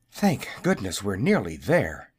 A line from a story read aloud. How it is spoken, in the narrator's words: panted the little wizard